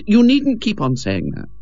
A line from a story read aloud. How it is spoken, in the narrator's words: said Ethel irritably